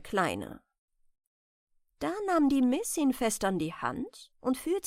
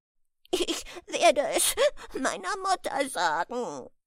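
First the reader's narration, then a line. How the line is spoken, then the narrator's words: Sobbing male voice. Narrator (German): schluchzte er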